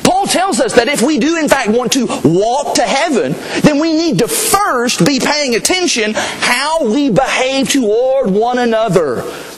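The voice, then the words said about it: Slight Southern American accent. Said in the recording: “I do have a little bit of a southern accent”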